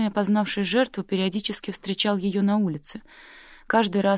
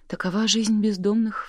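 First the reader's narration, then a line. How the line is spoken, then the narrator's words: Sigh. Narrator (Russian): вздохнул Колтон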